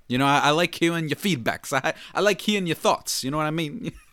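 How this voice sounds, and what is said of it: Odd put-on accent. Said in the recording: “I don't know why I'm talking like this. I don't even know what accent that was. That was odd.”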